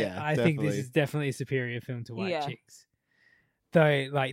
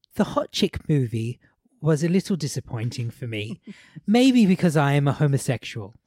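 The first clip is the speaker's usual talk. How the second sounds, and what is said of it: Put-on British accent. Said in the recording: “I'm going to read this in a British accent”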